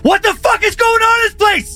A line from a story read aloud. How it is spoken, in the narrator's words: Chris now yelled in frustration